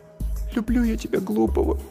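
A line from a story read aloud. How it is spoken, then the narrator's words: Sad repetition. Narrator (Russian): грустно повторяет Наташка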